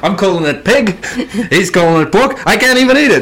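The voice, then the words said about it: Comedic stereotyped Jewish accent. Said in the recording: “The comedy Jew accent.”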